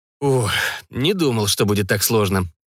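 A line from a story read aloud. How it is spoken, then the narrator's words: Exhaled words. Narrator (Russian): выдохнул молодой человек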